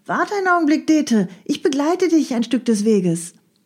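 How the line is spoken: Calling out. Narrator (German): durch eine offene Tür rief ihr eine Stimme entgegen

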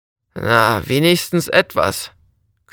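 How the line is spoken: Young man growling. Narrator (German): knurrte der junge Mann

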